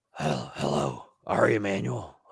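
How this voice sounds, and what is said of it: Imitates another person's voice. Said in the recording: “your Vince impression... Vince McMahon today”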